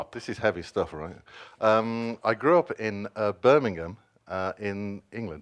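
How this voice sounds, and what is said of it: English accent. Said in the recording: “I assumed it wasn't Alabama from your accent.”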